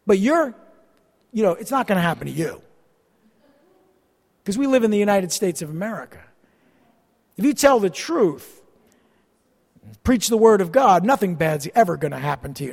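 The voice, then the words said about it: Sarcastic, mocking tone. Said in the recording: “I'm being sarcastic. ... I am saying something in a mocking tone to make my point.”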